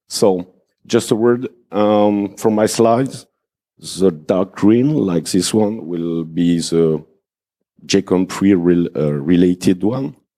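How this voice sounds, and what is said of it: French accent. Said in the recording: “I'm French. Sorry for the accent.”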